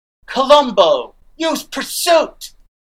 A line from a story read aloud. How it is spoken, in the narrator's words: you hear somebody shout